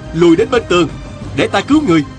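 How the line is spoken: Shouted. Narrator (Vietnamese): Viên Thừa Chí la lên

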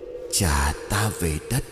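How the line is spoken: Moaning voice. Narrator (Vietnamese): tiếng rên rỉ lại vang lên

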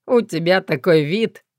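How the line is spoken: Snorting. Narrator (Russian): хмыкнул Гоша

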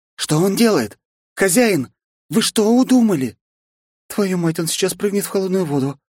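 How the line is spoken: Exclaiming. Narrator (Russian): воскликнула Кицуна

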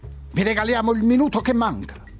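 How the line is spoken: Shouted. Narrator (Italian): suo grido

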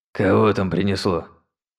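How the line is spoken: Hoarse old voice, muffled inside. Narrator (Russian): донёсся изнутри хриплый старческий голос

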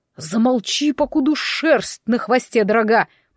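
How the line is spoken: Through gritted teeth. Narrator (Russian): процедил сквозь зубы Иван

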